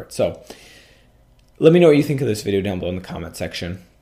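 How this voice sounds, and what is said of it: Scratchy, slightly hoarse voice. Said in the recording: “Sorry about my voice, if it sounds a little scratchy today, just dealing with some allergies or maybe a bit of a cold”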